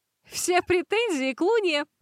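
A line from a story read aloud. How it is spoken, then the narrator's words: Bursting into laughter. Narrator (Russian): расхохоталась она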